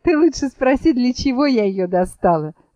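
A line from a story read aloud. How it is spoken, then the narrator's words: Laughing. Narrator (Russian): засмеялась елочка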